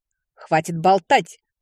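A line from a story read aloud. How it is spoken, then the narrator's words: Barked harshly. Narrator (Russian): рявкнула герцогиня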